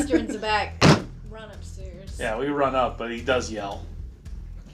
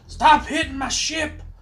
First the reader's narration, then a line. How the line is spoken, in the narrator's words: Mercer sits there and yells